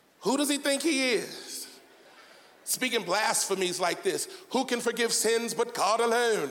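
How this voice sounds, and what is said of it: Put-on British accent. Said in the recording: “I'm sure they had a British accent.”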